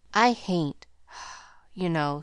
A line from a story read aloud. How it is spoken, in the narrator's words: sighed the boy